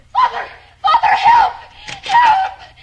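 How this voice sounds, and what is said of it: Screaming. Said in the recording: “why are you screaming?”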